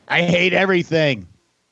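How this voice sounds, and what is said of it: Imitates another person's voice. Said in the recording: “That's my Tim impression.”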